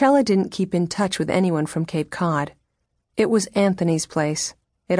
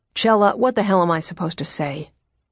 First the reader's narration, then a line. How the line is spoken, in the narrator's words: he went on more quietly, grimly